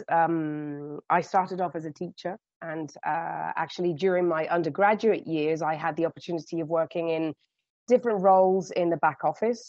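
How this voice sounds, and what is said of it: British accent. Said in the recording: “as you can gather from my accent, um, I started off in the UK”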